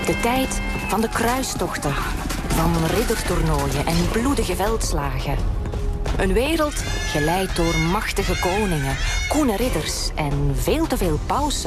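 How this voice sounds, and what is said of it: Pleasant noticeable regional accent. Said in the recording (Dutch): “Heerlijk, dat accent.”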